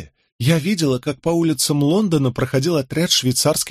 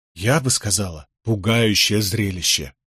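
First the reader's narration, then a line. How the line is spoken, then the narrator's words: Quiet correction. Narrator (Russian): негромко поправила Этельреда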